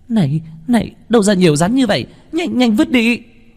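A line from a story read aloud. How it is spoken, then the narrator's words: Frightened scream. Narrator (Vietnamese): Nữ hài tóc đỏ sợ hãi hét lên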